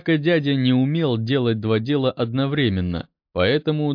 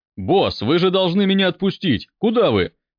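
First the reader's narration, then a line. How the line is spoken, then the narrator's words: Shouting. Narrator (Russian): кричал Минам дядя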